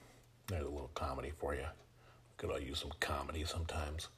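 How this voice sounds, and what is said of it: Usual voice. Nothing is said of it.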